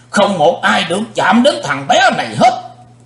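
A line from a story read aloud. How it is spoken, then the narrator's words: Thunderous shout. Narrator (Vietnamese): Sư diện quái ma hét tạo sấm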